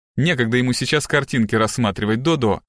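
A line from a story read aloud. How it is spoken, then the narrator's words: Irritated mother's rebuke. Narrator (Russian): раздраженно одернула ее мать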